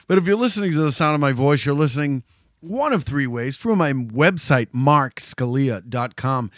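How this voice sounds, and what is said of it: Slightly hoarse voice. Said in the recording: “You can kind of hear it in my voice a little bit. I'm a little hoarse.”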